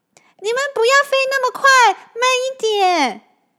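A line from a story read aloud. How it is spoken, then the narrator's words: Calling out. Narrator (Chinese): 小光边叫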